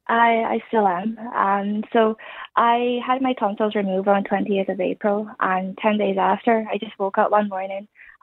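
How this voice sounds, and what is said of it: Irish-sounding accent. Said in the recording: “I've now got this Irish accent ... I have an Irish sounding accent”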